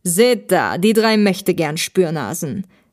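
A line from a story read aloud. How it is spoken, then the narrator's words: Man mocking. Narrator (German): spottete der Mann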